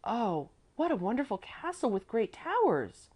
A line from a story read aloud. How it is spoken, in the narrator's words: Salo exclaimed